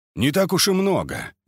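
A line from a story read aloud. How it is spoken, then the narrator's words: Repeated snort. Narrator (Russian): еще раз хмыкнул Кольцов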